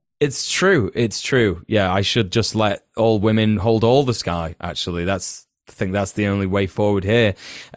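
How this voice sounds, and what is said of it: Extremely sarcastic delivery. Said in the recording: “I'm being sarcastic, being extremely sarcastic”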